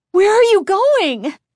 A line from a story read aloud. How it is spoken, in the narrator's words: Chris cried, her voice revealing her alarm